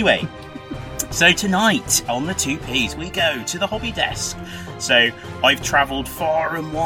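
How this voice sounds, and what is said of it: Usual voice. Nothing is said of it.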